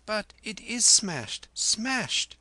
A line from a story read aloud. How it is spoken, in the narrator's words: he gasped